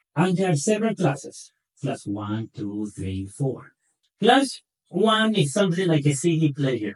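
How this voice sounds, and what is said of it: Non-native accent. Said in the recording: “A big complicated word with my accent. I have a hard time pronouncing it.”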